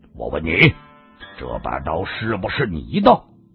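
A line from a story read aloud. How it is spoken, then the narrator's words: Stern, harsh. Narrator (Chinese): 厉声地说道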